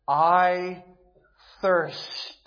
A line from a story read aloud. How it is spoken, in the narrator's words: He cried, giving expression to the reality and to the intensity of his physical suffering